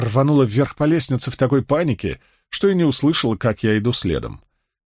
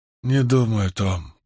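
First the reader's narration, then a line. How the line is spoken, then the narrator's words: Mumble. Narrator (Russian): промямлила она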